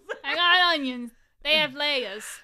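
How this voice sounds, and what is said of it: Shrek voice drifting into Jersey accent. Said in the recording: “That's my Shrek accent. ... I don't know why my Shrek accent turned into a jersey.”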